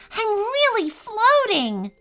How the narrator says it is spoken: Sally exclaimed

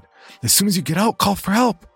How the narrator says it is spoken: One of the women shouted

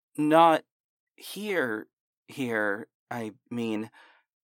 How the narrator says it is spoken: stammered

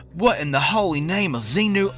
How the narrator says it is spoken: He gagged, sputtered, looked around, and said

